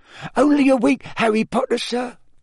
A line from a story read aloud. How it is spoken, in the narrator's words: said Dobby happily